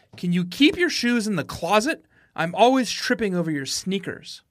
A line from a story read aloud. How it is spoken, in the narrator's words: she shouted